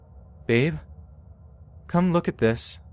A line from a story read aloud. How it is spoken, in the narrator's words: called out